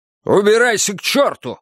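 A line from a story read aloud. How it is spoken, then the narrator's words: Shout. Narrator (Russian): закричал ему Хосе Аркадио Буэндиа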